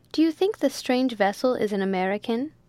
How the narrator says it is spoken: she asked eagerly

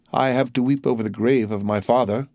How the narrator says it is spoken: replied Morel in a broken voice

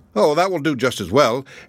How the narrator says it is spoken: the wolverine laughed and said

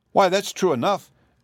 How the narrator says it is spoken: exclaimed Dorothy

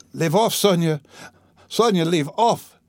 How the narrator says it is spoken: shouted, speaking fast, panting and coughing

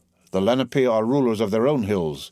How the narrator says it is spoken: returned the other a little haughtily

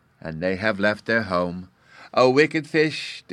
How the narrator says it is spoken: the youngest badger cried

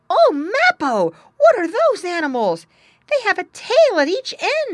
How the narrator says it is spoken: he cried out

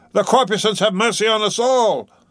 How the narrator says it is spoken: cried Stubb again

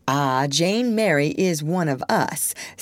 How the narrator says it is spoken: said Mrs

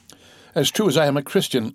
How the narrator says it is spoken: stammered Caderousse

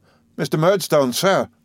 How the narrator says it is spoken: I cried to him

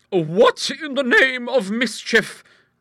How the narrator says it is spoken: cried a voice

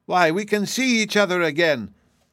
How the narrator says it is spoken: cried one joyfully

